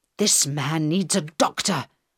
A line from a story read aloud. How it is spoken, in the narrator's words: Carl said angrily